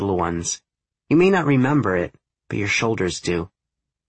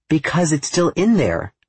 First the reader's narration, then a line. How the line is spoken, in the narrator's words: she exclaims